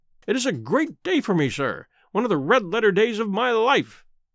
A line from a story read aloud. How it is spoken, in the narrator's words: he cried with many chuckles